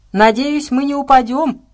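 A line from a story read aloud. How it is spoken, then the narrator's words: Shouted. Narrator (Russian): прокричал он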